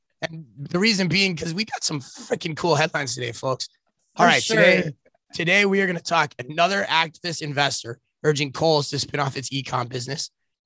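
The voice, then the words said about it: Hoarse, worn-out sick voice. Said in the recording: “My voice is shot. I've been sick for 10 days. I'm tired of it.”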